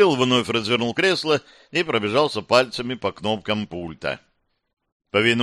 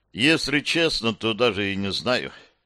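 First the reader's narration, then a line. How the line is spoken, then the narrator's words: Sighing. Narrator (Russian): Кирилл вздохнул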